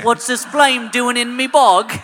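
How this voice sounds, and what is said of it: Put-on regional accent. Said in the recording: “I want a BAFTA award for that accent... you promised no accent work today”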